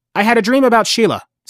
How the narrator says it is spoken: Stan blurted out

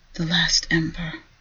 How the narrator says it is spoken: whispered

